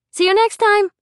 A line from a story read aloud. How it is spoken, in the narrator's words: Rainey chirped